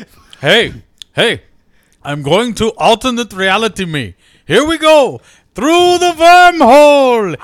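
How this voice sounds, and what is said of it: Odd, unidentifiable put-on accent. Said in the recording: “I don't even know what accent that is.”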